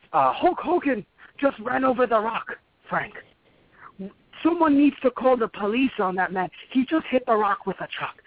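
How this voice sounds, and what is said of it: Old Italian man's accent. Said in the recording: “Italian accent, a really old Italian man in his 80s would say”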